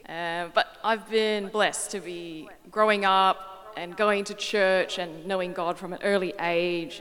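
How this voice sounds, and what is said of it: Slightly mixed accent. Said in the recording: “I was born in Singapore and came to Perth when I was 8 years old. So that may explain why my accent's a little bit mixed.”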